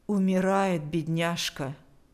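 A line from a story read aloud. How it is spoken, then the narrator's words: Even voice. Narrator (Russian): сказала она ровным голосом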